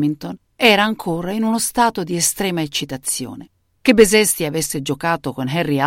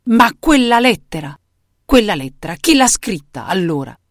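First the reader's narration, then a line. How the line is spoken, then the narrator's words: Roared. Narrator (Italian): Ruggì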